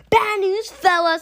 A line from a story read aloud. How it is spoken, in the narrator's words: I hollered very loud